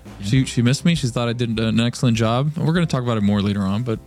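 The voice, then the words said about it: Tired, worn-out voice. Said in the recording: “Tired ... My voice is kind of gone.”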